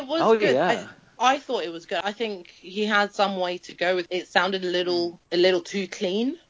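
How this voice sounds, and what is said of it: Usual voice. Nothing is said of it.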